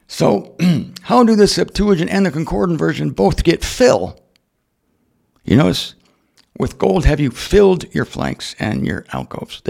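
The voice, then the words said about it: Strained, worn-out voice. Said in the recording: “My voice is shot”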